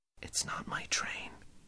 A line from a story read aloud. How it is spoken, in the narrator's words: he whispered